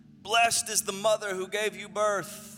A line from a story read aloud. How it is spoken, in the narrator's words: a woman in the crowd called out